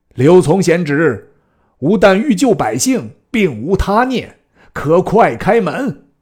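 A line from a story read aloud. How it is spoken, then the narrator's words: Loud shouting. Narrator (Chinese): 玄德大叫曰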